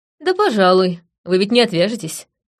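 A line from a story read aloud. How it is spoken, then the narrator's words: Wry snort. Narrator (Russian): хмыкнула я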